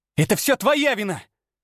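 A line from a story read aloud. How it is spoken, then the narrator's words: Shouted accusation. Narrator (Russian): выкрикнула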